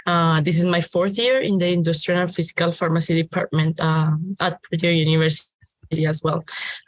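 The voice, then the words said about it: Colombian accent. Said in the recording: “I'm glad that you mentioned Colombia, because I was going to ask where that accent came from.”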